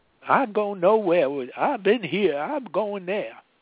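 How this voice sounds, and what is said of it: Hillary Clinton impression, southern accent. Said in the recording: “Hillary Clinton doing her southern accent”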